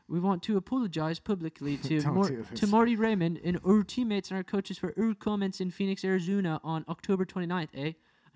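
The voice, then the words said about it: Put-on Canadian accent. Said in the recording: “you got to get the Canadian accent”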